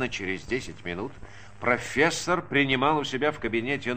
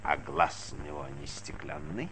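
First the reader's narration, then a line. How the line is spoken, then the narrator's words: Hoarse question, small speaker. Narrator (Russian): спросил маленький хрипло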